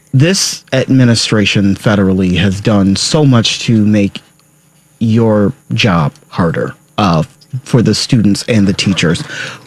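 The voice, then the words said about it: Deliberately serious speaking voice. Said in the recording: “This is my serious voice.”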